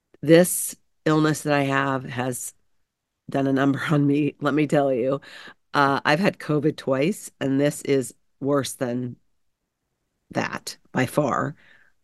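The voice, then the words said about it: Sick, unwell-sounding voice. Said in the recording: “if you can't tell from my voice, ... I've been sick”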